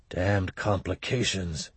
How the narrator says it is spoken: muttered

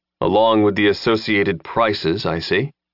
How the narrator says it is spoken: Lin said dryly

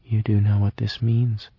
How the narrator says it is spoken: she had said entirely calmly

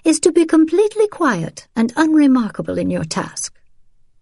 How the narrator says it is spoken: she was saying in a cultivated voice, clipped and cut

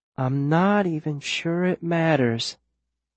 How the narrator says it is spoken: Viola says, her voice stretching out

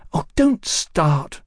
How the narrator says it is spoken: she said crossly

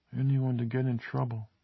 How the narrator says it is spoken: Carol finished in a tiny voice, almost the whisper of a mouse in a cartoon

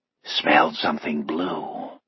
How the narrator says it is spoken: He replies in a hoarse, conspiratorial whisper

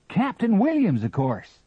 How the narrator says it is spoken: cried Hingston

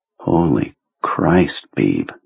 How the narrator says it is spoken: Jonesy said in a low, awed voice

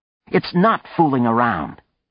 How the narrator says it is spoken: Anne snapped

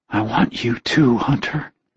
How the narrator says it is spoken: she whispered huskily

